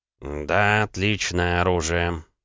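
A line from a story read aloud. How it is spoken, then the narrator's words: Smiling. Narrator (Russian): добавил он, улыбаясь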